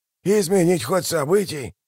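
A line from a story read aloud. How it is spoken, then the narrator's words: Mutter. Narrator (Russian): пробормотал Мураш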